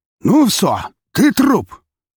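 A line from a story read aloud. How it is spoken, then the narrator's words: Shouted in near-perfect Russian. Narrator (Russian): крикнули мне почти на чистом русском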